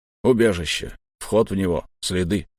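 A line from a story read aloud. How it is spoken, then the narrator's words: Grumbled. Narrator (Russian): пробурчал долговязый штурмовик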